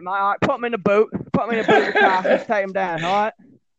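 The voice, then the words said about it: Put-on Cockney accent. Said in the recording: “Real Cockney”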